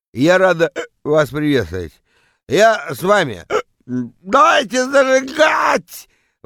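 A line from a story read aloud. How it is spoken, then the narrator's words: Yelling into microphone. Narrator (Russian): Вопит она в микрофон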